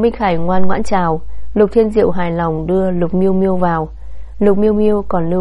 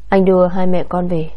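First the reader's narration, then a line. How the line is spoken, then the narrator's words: Gentle. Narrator (Vietnamese): Lục Phong Thiên dịu dàng nói với Đồng Nguyệt Hân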